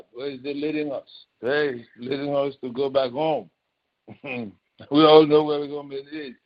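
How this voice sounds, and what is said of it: Nigerian accent. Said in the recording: “Excuse the accent. ... He's from Lagos, Nigeria. ... No. Akwa Ibom.”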